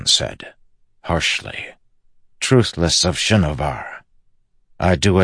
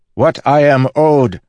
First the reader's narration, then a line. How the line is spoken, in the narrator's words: the assassin shouted